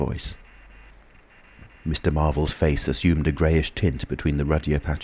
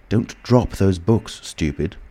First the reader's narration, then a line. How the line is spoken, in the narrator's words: said the voice sharply